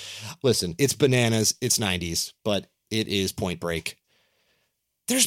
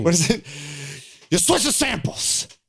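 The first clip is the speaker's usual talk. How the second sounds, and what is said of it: Imitates another person's voice. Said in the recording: “my Harrison Ford impression”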